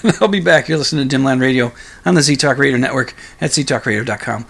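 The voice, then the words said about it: Strained, worn-out voice. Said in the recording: “before my voice gets too too awful ... I'm going to do a little throat maintenance ... hopefully, in better voice”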